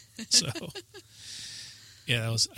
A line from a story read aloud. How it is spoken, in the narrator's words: I laughed